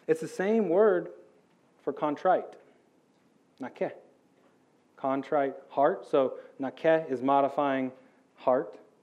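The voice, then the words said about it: American accent. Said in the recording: “how I say it, nakeh, with my American accent”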